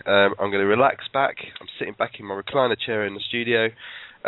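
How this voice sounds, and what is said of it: Voice with a cold. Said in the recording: “I've got a cold ... I do have a cold”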